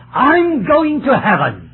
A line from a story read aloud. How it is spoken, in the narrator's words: he suddenly turned around and he shouted